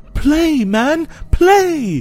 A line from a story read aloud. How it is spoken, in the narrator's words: cried the widow